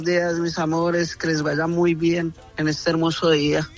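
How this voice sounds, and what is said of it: Colombian Spanish accent. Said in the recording (Spanish): “Usted tiene que hacerlo al modo colombiano. ... ¡Ay, qué rico hablan! A los mexicanos nos encanta el acento colombiano. ... ese aceitico tan sabroso que usted tiene”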